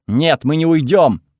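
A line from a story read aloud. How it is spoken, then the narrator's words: Bark. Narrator (Russian): рявкнула Брана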